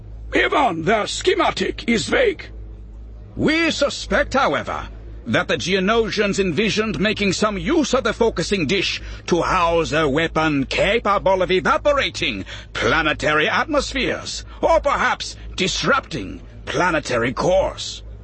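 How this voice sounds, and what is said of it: Thick Outer Rim accent. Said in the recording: “he began in a thick outer rim accent”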